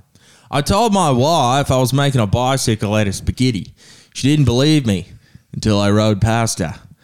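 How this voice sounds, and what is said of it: Put-on accent. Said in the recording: “I have to do this in an accent.”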